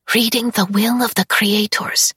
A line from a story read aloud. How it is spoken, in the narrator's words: Syza whispers